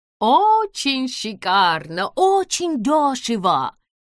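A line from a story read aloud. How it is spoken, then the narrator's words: Woman's sing-song voice. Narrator (Russian): Нараспев произнесла женщина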